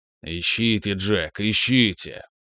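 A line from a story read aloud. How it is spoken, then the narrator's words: Grumbling. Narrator (Russian): проворчал Форд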